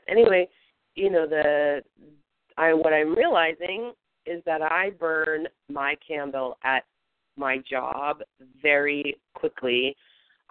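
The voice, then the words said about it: Sick, chesty voice. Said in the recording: “I've been sick for I can't keep track of the days ... you can probably hear in my voice that, I'm struggling with some stuff in my chest”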